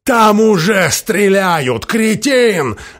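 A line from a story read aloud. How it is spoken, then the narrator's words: Barking snap. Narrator (Russian): рявкнул Джефферсон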